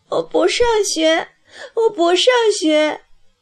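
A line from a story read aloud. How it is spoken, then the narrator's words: Muffled sobbing. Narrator (Chinese): 葵花将脸埋在奶奶的胸前，一个劲儿的哭起来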